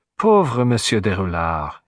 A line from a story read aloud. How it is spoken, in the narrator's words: he sighed